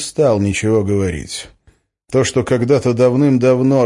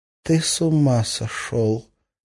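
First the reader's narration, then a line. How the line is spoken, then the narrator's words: Whisper. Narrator (Russian): прошептала Арина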